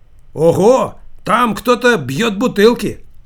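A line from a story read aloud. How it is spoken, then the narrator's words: Shout. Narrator (Russian): Кто-то из них крикнул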